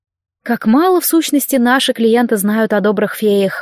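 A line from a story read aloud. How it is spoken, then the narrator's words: Sighed. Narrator (Russian): вздохнула я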